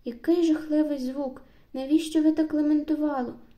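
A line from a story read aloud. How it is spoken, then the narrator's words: Exclaimed. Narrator (Ukrainian): вигукнула міс Ебот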